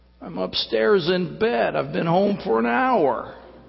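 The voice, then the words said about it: Sleepy, drowsy voice. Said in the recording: “in a real sleepy voice”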